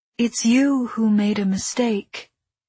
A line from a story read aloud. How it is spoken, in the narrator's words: he said, in a higher, softer voice than I had ever heard from him